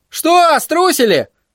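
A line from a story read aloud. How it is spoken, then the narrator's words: Yelled. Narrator (Russian): заорал Тедди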